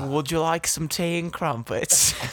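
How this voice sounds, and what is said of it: Put-on British accent. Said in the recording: “talk in these British accents”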